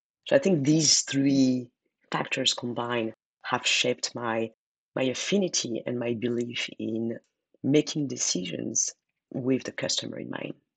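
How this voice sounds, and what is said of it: Foreign accent. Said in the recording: “I'm guessing from your accent, you probably didn't grow up in this country”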